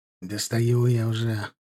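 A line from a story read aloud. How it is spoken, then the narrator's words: Muttering. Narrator (Russian): пробормотал тот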